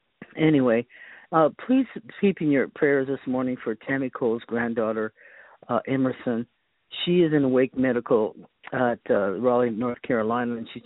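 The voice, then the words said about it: Hoarse, froggy voice from a cold. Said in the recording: “I have a cold this morning, so I sound a little froggy”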